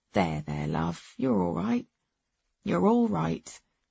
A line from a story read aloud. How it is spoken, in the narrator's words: Dad stood behind her, patting her back and muttering